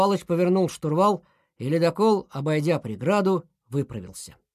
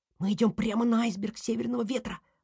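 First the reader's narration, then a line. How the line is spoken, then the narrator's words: Whispered. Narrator (Russian): прошептал Снеж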